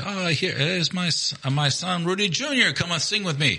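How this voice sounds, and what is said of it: Imitated Filipino accent. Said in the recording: “It's not racist, by the way, because it's actually how he sounds. ... They're Filipino. ... I'm doing an impression. It's Filipino.”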